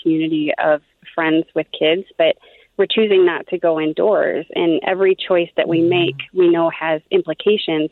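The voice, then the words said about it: Exhausted, tired-sounding voice. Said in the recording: “I can hear the exhaustion in her voice.”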